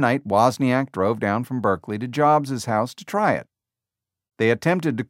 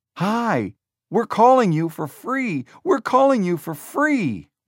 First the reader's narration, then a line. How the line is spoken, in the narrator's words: Wozniak shouted